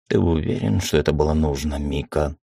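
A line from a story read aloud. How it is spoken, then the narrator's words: Weary question. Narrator (Russian): устало спросила Корнелла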